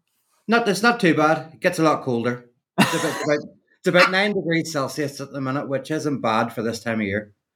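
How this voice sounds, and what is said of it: Northern Irish accent. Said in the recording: “I hear a Scottish accent ... No, the Northern Irish. So, yeah, I mean, it's quite similar”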